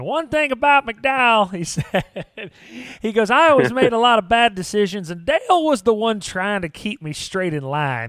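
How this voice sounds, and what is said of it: Imitates another person's voice. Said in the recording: “I'm trying to do my best Wendell Wallace impression.”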